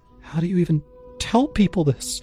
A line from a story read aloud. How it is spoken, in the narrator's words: I whispered